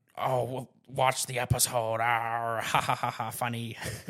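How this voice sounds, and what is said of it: Joker impression with cackling laugh. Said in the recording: “your best Joker impression”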